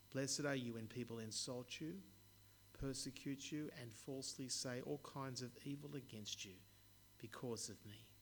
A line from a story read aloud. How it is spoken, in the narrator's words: said Jesus